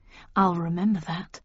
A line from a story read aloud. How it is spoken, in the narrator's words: murmured